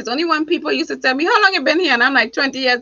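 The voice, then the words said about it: Non-American foreign accent. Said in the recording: “why you talk like that? ... he was hardcore American ... my accent at the end of the day makes me extra special ... I was always extra conscious of my accent”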